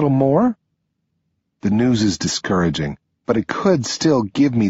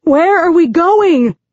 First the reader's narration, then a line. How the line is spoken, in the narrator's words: Adelina yells